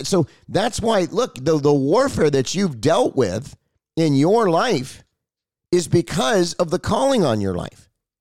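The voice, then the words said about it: Strained, hoarse voice. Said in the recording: “You hear how my voice is strained? That's because I've been preaching so much. ... my throat hurts and my voice is messed up”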